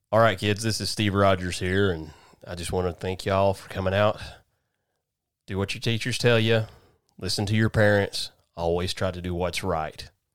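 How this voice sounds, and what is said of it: Low-pitched southern superhero voice. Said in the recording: “Cap kind of has to talk down here, but I don't have the New York accent, so it's a very southern. ... My Captain America southern.”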